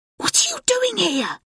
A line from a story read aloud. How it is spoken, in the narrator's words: He hisses